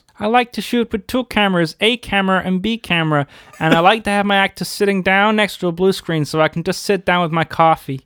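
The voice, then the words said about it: George Lucas impression. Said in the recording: “part-time George Lucas impersonator ... It's like he's in the room with us.”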